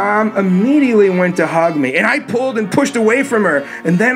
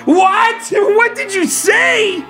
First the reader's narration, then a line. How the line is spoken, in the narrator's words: I screamed out again